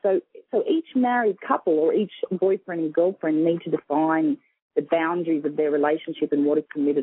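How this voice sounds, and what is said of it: Australian accent. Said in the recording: “You have such a beautiful accent... I'm from Sydney, Australia”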